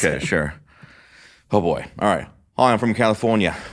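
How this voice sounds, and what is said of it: Convincing Australian accent. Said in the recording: “your best Australian accent ... your voice was placed in the accent. It wasn't a put-on voice. ... Very good.”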